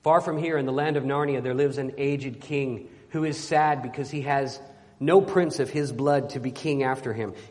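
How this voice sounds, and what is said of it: Deep lion character voice, congested. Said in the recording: “I'm doing my best Narnia Aslan voice possible, even though I have a cold... I usually do it real deep down in here.”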